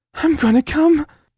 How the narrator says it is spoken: she squealed in my ear

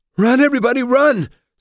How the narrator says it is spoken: screamed Laia

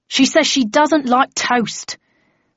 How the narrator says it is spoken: said the floor manager in an exasperated tone

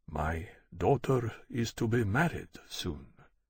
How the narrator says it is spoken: Marden said quietly

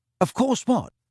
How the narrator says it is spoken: said Ron rather impatiently

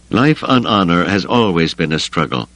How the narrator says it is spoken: the Matrok said

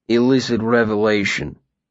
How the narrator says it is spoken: Will said grimly

